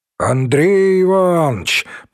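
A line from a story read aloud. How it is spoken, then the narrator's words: Deep voice from another room. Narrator (Russian): пробасил из комнаты Земский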